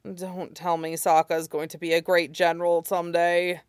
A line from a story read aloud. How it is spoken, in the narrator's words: Zuko grumbled